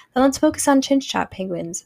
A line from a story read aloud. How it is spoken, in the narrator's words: said Lisa